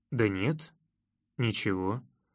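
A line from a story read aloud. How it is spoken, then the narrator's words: Gloomy, emotion showing through. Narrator (Russian): мрачно ответил я, но скрыть эмоции все равно не получилось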